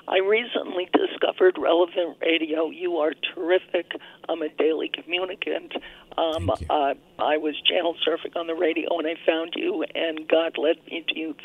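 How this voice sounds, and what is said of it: Voice affected by a cold. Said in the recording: “I have a little cold.”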